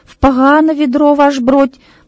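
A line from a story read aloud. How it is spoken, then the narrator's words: Babbling mumble. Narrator (Russian): пролепетал Петренко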